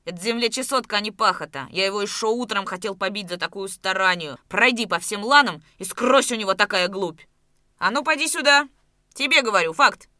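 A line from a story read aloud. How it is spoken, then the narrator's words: Shout. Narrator (Russian): крикнул Давыдов Атаманчукову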